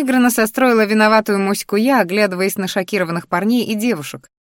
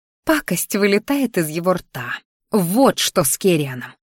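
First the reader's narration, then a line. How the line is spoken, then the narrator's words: Angry growl. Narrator (Russian): рычала я злобно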